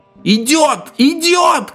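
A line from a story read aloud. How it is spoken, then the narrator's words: Very loud shout. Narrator (Russian): крикнул один из заговорщиков, и чувствительная усилительная система Талага чуть не взорвала наушники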